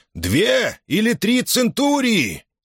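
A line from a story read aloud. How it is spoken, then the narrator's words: Shouted. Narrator (Russian): крикнул управляющий Корнелии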